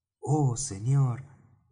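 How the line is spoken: Exclamation. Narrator (Spanish): exclamé yo

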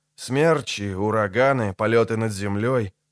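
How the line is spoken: Grumbling. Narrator (Russian): проворчал Геральт

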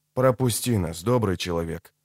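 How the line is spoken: Said quietly. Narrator (Russian): тихо сказал ведьмак

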